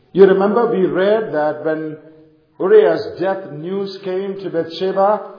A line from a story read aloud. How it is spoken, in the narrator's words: she moaned